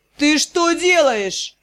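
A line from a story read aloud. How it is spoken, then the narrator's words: Roaring. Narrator (Russian): взревела Дара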